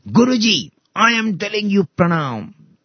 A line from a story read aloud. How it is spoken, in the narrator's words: He shouted